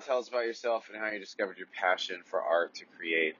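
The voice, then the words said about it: Low, groggy morning voice. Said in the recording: “My voice is a little, it's got morning voice. Like, you can get really low, like, really low morning voice.”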